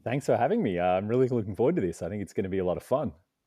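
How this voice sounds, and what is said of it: Australian accent. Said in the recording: “I'm originally from Australia. You can tell by the accent”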